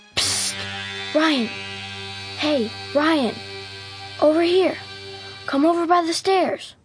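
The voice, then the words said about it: Loud whisper. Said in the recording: “he heard a loud whisper ... Why are you whispering?”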